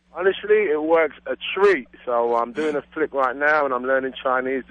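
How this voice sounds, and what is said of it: East London British accent. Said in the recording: “you are a Brit ... I'm a Londoner. East London, to be precise.”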